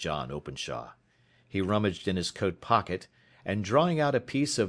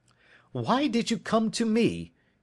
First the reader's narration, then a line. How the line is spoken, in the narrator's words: he cried